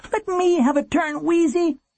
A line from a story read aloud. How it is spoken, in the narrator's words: he begged